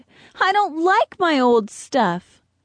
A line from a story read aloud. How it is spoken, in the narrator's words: Beatrice exclaimed